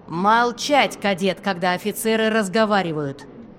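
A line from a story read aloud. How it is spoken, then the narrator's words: Rough command. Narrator (Russian): Прозвучало грубо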